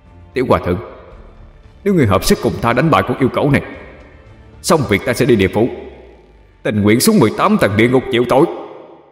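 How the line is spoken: Loud voice. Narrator (Vietnamese): Lưu Tình lớn tiếng nói

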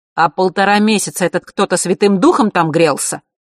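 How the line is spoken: Irritated bark. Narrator (Russian): рявкнул папа раздраженно

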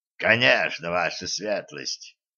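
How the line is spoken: Creaky voice. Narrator (Russian): проскрипел Карл

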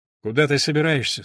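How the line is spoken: Plain. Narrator (Russian): спросила Елена

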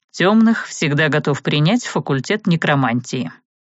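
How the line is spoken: Through clenched teeth. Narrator (Russian): сквозь зубы процедил он

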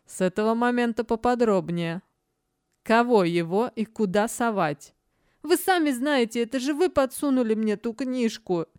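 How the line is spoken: Laughing. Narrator (Russian): Смеясь, Верган

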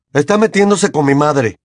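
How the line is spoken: Shouted. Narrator (Spanish): gritó Seamus

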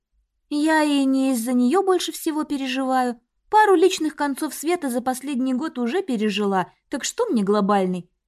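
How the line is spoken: Sad wry chuckle. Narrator (Russian): Я грустно усмехнулась

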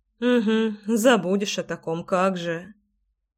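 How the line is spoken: Muttered. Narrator (Russian): пробормотала Леся

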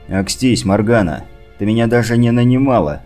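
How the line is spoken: Angry snap. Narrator (Russian): разозлившись, огрызнулся я

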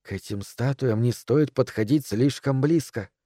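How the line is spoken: Whisper. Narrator (Russian): шепнула миссис Дэрроу

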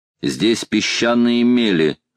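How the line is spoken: Plain. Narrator (Russian): сказал он Остину

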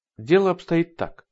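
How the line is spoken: Plain. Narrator (Russian): сказала она

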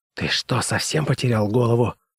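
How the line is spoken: Whisper. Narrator (Russian): прошептала она

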